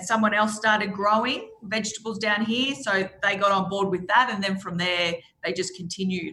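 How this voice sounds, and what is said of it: Strong Australian accent. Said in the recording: “you really have a great Australian accent, as though you actually do come from the bush ... could I sound any more Australian?”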